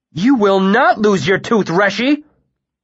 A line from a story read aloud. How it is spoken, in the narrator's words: Bast said fiercely